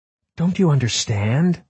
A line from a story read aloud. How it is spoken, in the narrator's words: Margot pleaded